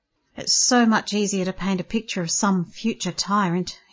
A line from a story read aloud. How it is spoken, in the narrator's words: he mumbled